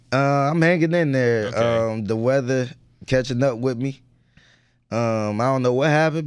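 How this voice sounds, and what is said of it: Raspy, hoarse voice. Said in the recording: “a little raspy right now, sound like Gucci Mane in 06”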